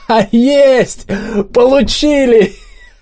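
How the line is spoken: Joyful shout. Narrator (Russian): радостно прокричал

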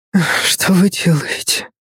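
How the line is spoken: Whisper instead of shout. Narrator (Russian): Хотела закричать, но прошептала

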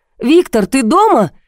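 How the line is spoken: Shouting. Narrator (Russian): крикнула я

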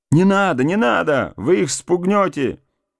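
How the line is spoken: Annoyed shout. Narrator (Russian): досадливо крикнул кто-то

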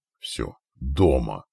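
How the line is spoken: Exhaled. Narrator (Russian): выдохнул Диан

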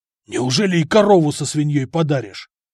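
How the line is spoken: Asked in hoarse voice. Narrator (Russian): Севшим голосом спросил Гораст

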